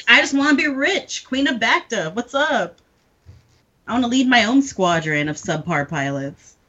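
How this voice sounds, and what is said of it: Slight Southern belle accent. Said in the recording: “suddenly become a Southern Belle ... in a very slight Southern accent. It sounded like she was the daughter of an oil baron.”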